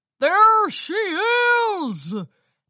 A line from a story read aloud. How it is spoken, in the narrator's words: the pony shouted